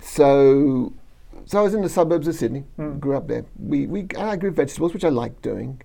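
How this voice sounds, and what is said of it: Australian accent. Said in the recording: “Based on the accent. ... So, no, Sydney, Australia.”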